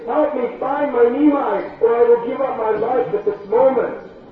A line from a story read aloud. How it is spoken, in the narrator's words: she pleaded